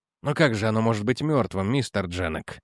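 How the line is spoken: Calm, almost polite objection. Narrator (Russian): Спокойно, почти вежливо возразил Эдвардс

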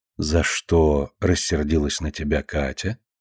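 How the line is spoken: Soft serious question. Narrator (Russian): мягко, но серьезно спрашивает она

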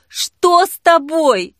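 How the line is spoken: Desperate exclamation. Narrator (Russian): Отчаянно воскликнула Жанна

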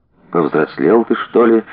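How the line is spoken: Sighing. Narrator (Russian): вздохнул Серафим

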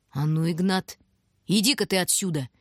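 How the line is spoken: Ominous request. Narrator (Russian): Нехорошим голосом попросила

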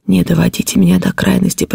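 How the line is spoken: Terrified whisper. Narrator (Russian): прошептал я в ужасе

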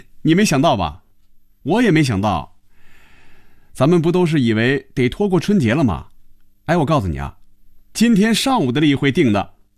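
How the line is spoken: Laughing. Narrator (Chinese): 韩香笑了起来

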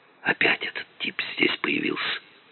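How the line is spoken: Whisper. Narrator (Russian): прошептала Кира

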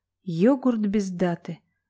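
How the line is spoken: Strange exhaled words. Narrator (Russian): выдохнул что-то странное Дубинин

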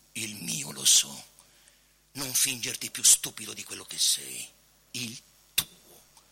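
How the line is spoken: Quiet. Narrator (Italian): Il procuratore disse piano

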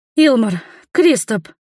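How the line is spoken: Loud exhale. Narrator (Russian): шумно выдохнула она

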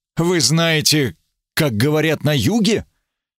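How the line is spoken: Sighing. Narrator (Russian): Я вздохнул

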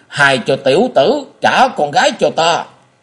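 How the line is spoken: Angry roar. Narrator (Vietnamese): giận dữ rống lên

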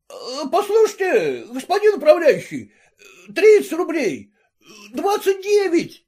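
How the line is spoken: Loud urgent shouting. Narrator (Russian): во все горло кричал ему вслед приказчик, стараясь не потерять покупателя

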